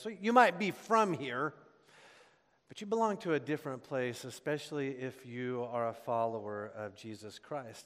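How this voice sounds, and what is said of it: Gentle regional accent, pronounced R's. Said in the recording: “my accent is a very gentle accent ... I enunciate my R's tells you that I belong to a different place”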